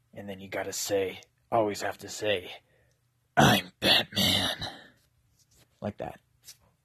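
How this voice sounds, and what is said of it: Low raspy Batman voice. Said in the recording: “You've got to get it low and raspy like this”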